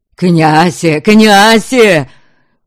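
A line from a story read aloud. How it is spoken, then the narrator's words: Spluttering yell. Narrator (Russian): Брызжа слюной, вопил Грим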